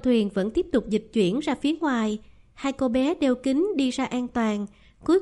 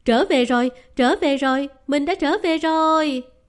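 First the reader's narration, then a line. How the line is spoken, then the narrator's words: Overjoyed shriek. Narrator (Vietnamese): sướng rơn hét toáng lên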